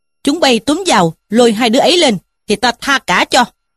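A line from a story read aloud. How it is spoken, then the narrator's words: Shouted command. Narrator (Vietnamese): Trí Thâm quát lũ kia mà bảo rằng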